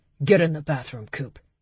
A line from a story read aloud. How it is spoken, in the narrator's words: he ordered, his voice low